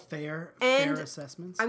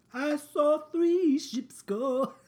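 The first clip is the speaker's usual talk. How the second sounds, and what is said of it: Sings imitating a male pop singer. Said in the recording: “That's my Sting impression.”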